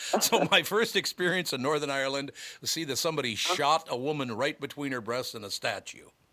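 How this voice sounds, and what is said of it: Usual voice. Nothing is said of it.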